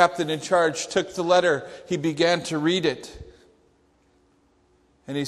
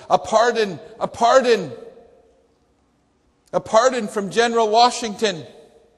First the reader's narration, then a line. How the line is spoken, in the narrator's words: Peter Miller, running with his cane as best as he could, out of breath, but still managed to shout with all of his might